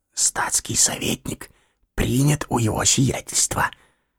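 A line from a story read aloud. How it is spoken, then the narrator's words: Whispered. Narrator (Russian): тотчас же шептал Ане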